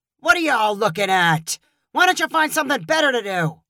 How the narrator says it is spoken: Caleb shouted

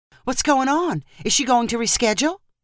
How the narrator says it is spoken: Sunflower's mom asked in a flustered voice

